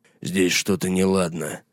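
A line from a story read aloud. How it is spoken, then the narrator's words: Mutter. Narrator (Russian): пробормотал Гаррет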